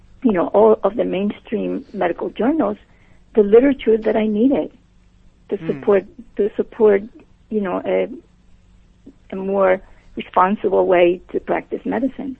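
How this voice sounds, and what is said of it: Puerto Rican accent. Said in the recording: “you have an accent. ... I was born and raised and educated in Puerto Rico.”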